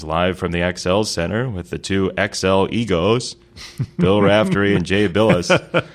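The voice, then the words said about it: Imitates another person's voice. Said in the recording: “Sean's going to be mad that I keep doing this impersonation.”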